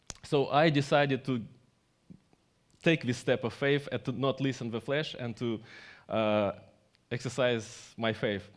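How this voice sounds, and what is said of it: Strong non-native English accent. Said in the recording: “my English is not good, my English is bad ... somebody listening my accent”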